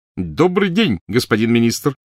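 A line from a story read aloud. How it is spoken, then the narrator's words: Shouting. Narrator (Russian): крикнул Перси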